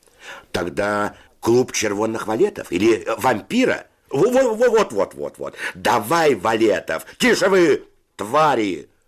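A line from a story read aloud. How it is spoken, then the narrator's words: Shouting. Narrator (Russian): закричал Федя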